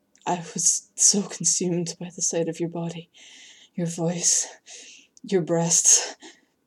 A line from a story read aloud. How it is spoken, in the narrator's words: he groaned